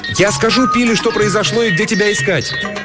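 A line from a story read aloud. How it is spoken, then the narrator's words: Confused shout. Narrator (Russian): Растерянная Мэри крикнула вслед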